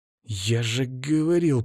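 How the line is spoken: Hiss. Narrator (Russian): прошипел

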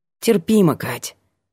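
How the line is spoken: Plain, young man. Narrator (Russian): ответил парень

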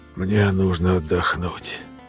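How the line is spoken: Dry, rustling voice. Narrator (Russian): сказал сухим, шелестящим голосом

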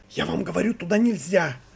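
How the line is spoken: Loud whisper from corridor. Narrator (Russian): раздался громкий шепот из коридора

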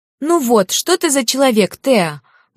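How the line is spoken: Indignant exclamation. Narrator (Russian): возмущенно воскликнула Кариса

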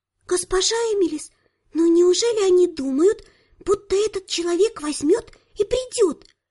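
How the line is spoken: Maid's whisper. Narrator (Russian): прошептала горничная

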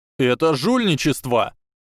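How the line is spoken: Yelled. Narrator (Russian): завопил Блейз Забини

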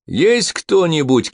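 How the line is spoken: Shout. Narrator (Russian): крикнул Тобелла

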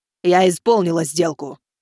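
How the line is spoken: Deep bass voice. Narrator (Russian): добавила басом

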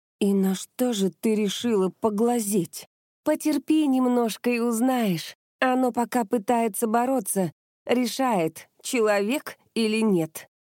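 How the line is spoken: Hoarse female voice. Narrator (Russian): прохрипела

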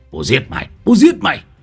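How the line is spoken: Enraged hiss. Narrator (Vietnamese): Thầy nhuốt không trôi, thầy rít lên

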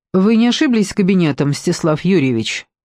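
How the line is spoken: Cold question. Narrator (Russian): спросила она холодно

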